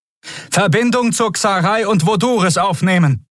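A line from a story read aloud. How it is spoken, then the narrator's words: Calling over the noise. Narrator (German): rief Kvudal dem Kommunikationsoffizier über den Lärm zu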